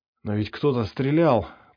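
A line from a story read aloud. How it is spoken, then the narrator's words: Hoarse, in pain. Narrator (Russian): прохрипел он, кривясь от боли в боку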